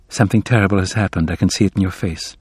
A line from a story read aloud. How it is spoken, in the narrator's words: Abigail murmured